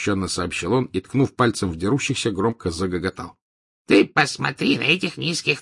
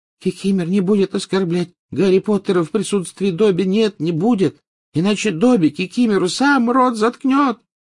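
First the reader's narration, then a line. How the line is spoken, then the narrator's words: High-pitched exclamation. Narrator (Russian): тонким голоском воскликнул Добби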